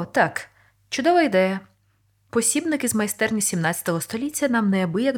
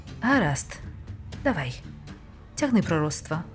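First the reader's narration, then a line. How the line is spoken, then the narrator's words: Tired. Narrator (Ukrainian): втомлено сказав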